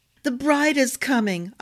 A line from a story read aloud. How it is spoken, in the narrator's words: Olive gasped